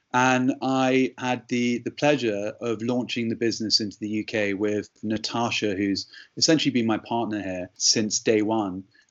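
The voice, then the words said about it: English accent. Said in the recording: “the only guy they knew with an English accent”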